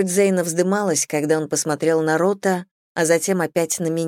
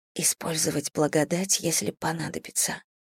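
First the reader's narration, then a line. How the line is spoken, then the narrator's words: Whispered. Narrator (Russian): прошептала я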